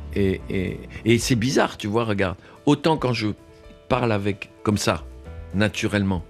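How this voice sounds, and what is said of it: Speaks French with a noticeable accent. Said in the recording (French): “avec ma langue à moi, ma langue maternelle, elle est faite de, de mon accent. Mon c'est comme une musique que je peux pas enlever”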